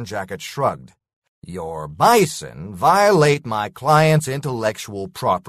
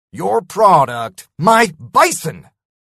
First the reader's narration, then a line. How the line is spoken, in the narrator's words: I spat